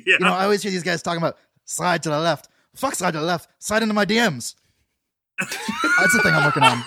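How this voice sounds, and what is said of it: Imitates another person's voice. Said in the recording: “do my Augie impression”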